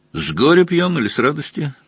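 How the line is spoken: Lazy question. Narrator (Russian): лениво осведомился Мазур

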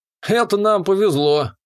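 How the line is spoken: Smirking grunt. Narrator (Russian): хмыкнул молчаливый до этого парень Сид

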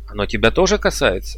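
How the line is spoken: Angry announcement. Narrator (Russian): сердито объявил Дейтон

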